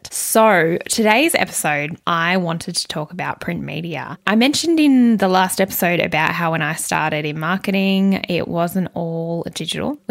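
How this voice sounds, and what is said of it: Croaky, worn voice. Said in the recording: “my voice is starting to go... my voice is still a bit so-so... the croakiness that becomes of my voice”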